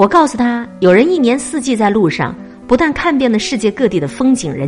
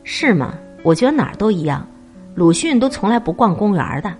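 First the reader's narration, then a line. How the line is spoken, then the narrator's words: Flat, indifferent. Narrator (Chinese): 他淡淡的回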